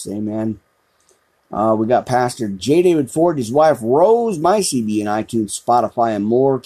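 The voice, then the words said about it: Announcer-style radio voice. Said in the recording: “my radio voice here”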